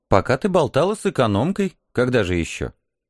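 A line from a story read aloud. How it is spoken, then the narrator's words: Calm snort. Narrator (Russian): Спокойно хмыкнул командор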